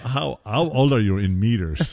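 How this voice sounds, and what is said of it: Bad put-on Swedish accent. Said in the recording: “It's a terrible Swedish accent... It really is bad.”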